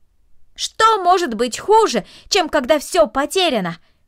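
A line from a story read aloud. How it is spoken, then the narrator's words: Shout after someone. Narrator (Russian): крикнул ей вслед Дино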